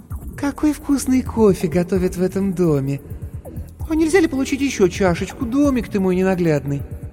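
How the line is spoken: Sickly-sweet cooing voice. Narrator (Russian): сказала приторно-умильным голосом

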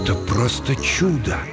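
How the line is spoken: Hushed, reverent. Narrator (Russian): Тихо, почти с благоговением, произнес Тиммонс

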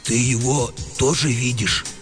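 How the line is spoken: Bewildered whisper. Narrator (Russian): растерянно спросил комендант у сторожа все еще шепотом

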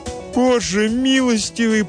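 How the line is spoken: Mother's anguished moan. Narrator (Russian): простонала мать

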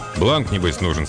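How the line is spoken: Plain. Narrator (Russian): спросил

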